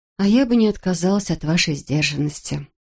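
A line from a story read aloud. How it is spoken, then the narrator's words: Sad admission. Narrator (Russian): грустно призналась она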